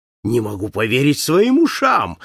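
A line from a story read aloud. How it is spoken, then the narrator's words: Exclaiming, bursting into laughter. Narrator (Russian): воскликнул Паспарту, раздражаясь громким хохотом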